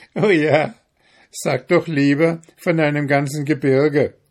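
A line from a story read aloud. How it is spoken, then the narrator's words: Stranger's mocking sneer. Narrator (German): höhnte der Fremde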